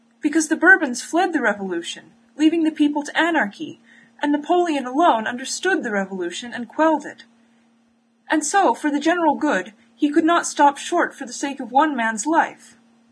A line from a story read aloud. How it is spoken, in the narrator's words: he continued desperately